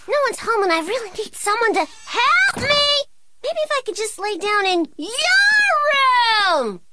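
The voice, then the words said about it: Shouting. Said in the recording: “Why are you shouting?”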